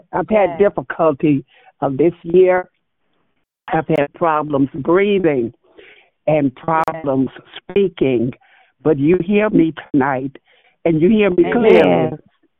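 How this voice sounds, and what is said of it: Slightly raspy voice. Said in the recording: “I may be a little raspy”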